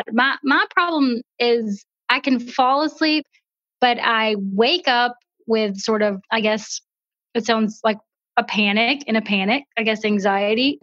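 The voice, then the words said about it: Southern drawl accent. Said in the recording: “That is the coolest accent... You got that Southern drawl.”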